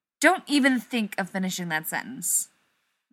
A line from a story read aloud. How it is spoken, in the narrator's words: Rodney snaps